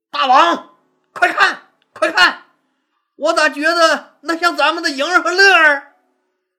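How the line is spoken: Sudden loud shout. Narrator (Chinese): 夏侯婴突然大声喊道

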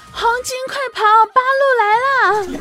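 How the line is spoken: Shouting. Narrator (Chinese): 冲儿子大喊

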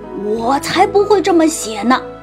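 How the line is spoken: Roaring. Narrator (Chinese): 狮子大吼

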